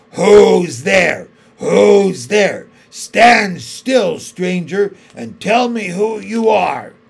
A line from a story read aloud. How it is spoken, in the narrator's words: the huge creature said in a growling voice